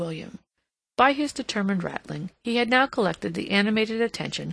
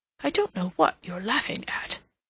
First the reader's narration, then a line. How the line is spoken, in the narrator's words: he muttered